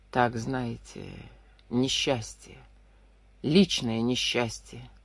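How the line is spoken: Quiet. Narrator (Russian): тихо ответил Хинский

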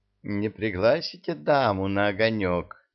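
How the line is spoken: Tender girlish cooing voice. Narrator (Russian): проворковал нежный девичий голосок

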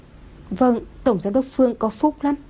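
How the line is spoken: Trembling, fearful voice. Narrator (Vietnamese): Anh ta run rẩy, lại sợ hãi đổi giọng

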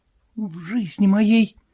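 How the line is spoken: Whispered. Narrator (Russian): прошептала она

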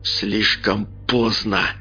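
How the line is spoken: Hissed. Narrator (Russian): прошипел Олег

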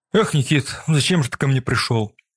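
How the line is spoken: Sigh. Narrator (Russian): вздохнул Макс

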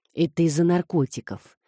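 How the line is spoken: Quiet remark. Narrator (Russian): тихо заметил Марио

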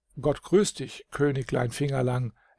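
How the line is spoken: Reply with deep sigh. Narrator (German): erwiderte mit einem tiefen Seufzer

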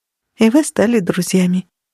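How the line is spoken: Soft. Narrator (Russian): мягко произнесла она

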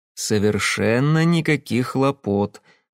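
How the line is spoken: Gentle reassurance. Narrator (Russian): ласково заверил я

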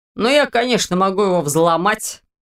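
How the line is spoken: Snort. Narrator (Russian): хмыкнул тот

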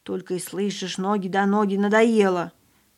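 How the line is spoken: Displeased grumble. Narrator (Russian): Павлик недовольно пробурчал

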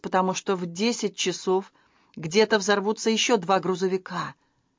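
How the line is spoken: Snapped. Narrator (Russian): огрызнулась Грейс

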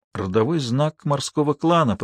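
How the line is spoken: Whispered. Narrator (Russian): прошептала Алиса

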